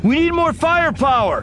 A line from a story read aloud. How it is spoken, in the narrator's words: Anakin shouted